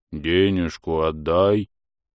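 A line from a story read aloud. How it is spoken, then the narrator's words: Booming drone. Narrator (Russian): прогудел рыжий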